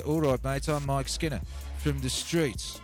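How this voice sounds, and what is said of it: Birmingham accent impression. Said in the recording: “he actually had to brum my accent and talk like this... That's his real voice”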